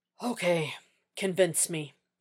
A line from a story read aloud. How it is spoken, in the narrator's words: Jack said with a sigh